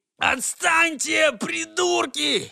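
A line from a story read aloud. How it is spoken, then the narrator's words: Desperate scream. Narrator (Russian): завопил в отчаянии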